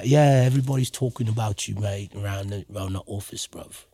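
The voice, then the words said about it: Put-on British accent. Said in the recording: “She just breaks out into a British accent every once in a while ... It's a good British accent”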